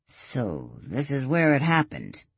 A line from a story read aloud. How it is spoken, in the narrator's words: Ian murmured